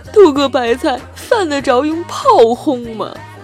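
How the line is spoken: Tearful middle-aged man. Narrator (Chinese): 一个浑身焦黑的大叔啊，一口哭腔的说道

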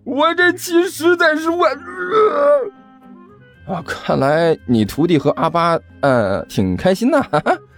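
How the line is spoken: Loud roar. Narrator (Chinese): 汪旭大声吼道

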